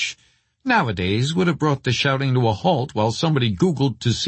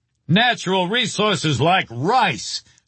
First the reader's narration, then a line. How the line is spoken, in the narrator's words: someone else would shout